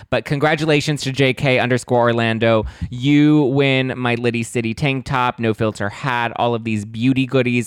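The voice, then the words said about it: Hoarse, partly lost voice. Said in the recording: “My voice is a little bit gone ... It was very loud, and I had to project my voice very much ... my voice is a little kind of almost gone-ish”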